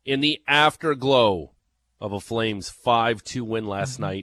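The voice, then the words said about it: Jerry Howarth impression. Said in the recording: “Do the voice... That's my Jerry Howarth... Everyone has a Jerry Howarth impression. Some are better than others. Mine is C minus”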